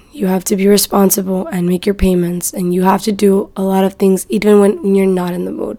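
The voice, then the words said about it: Exhausted, tired-sounding voice. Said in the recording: “You can hear it in my voice. I sound so exhausted.”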